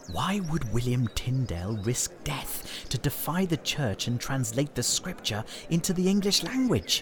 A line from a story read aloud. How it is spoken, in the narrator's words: They whispered